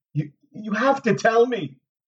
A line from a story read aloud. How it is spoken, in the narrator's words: begged him